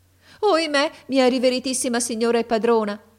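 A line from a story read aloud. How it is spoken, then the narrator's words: Woman exclaiming. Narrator (Italian): ella esclamò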